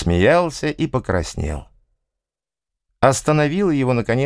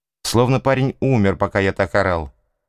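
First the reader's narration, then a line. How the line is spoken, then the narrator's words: Plain. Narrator (Russian): сказал он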